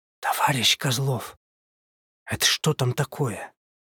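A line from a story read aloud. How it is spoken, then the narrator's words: Nervous gulping whisper. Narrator (Russian): Я шумно сглотнул и прошептал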